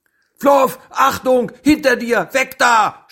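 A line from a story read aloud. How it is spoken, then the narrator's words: Shouting. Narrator (German): schrie er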